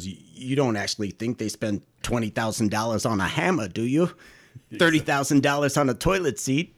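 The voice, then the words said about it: Imitates another person's voice. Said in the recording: “That's pretty good. ... Well done. ... That's good impersonation. ... That's my Judd Hirsch.”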